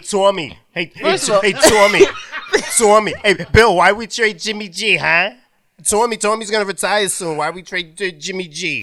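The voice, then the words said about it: Impression of a football fan. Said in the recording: “that is a beautiful impression ... That was good ... That shit was good”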